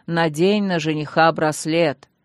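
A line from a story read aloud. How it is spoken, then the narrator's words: Booming priest's bass. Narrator (Russian): прогудел над головой бас жреца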